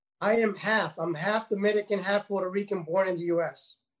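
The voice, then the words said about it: Bronx New York accent. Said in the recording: “you sound exactly like my Bronx family in New York”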